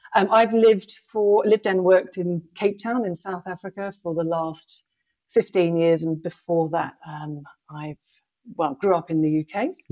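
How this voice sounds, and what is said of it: Blended British and South African accent. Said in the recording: “your accent because it's British and it's also South African ... a bit of a blend of an accent”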